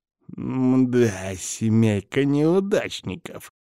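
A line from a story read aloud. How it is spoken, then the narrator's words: Spiteful mutter. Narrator (Russian): злобно пробормотал он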